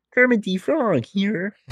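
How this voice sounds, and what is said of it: Imitates Kermit the Frog's voice. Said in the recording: “best Kermit the Frog impression ... Kermit the Frog. Yeah, that's crazy ... that's pretty good”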